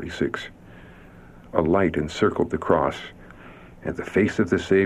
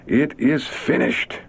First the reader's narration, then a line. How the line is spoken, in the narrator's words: in clear trumpet-like tones that seemed to resound throughout creation, Jesus cried